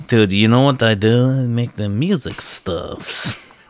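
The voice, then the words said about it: Put-on accent. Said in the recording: “Cool accent, bro. ... We do accents.”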